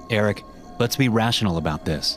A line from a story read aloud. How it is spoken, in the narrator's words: Eric replied